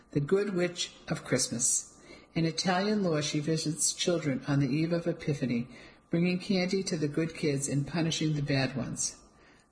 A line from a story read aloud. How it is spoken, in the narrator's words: I told her between giggles